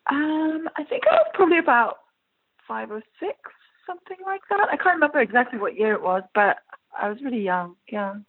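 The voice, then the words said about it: Faded English accent. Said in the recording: “you do have an English accent, correct? ... What's left of it, anyway?”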